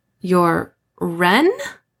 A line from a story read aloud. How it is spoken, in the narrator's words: I said, my voice rising in pitch